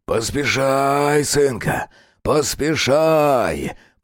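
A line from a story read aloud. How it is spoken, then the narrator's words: Rasping, imitating dead father. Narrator (Russian): прохрипел Виктор Палыч голосом его мертвого отца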